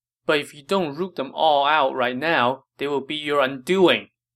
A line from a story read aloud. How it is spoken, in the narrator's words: Yuan Shao cried